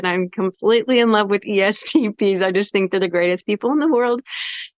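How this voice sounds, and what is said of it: Excited, animated speech. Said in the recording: “as you can now hear in my voice, I'm getting excited”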